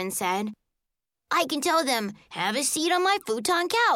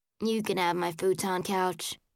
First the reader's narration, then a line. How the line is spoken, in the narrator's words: Uncle Jay said sadly